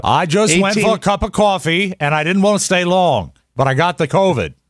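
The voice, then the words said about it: Very bad put-on Maine accent. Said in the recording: “That's a very, very bad main accent right there.”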